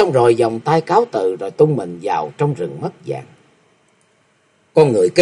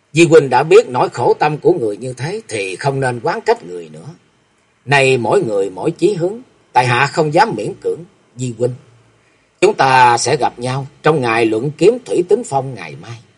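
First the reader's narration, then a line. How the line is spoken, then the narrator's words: Harsh laughing. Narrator (Vietnamese): hắn cất tiếng cười gay gắt và nói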